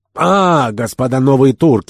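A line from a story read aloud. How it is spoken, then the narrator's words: Exclamation. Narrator (Russian): воскликнул господин Керабан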